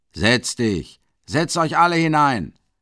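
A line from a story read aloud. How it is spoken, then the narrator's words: Shouting. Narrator (German): schreit Mikolka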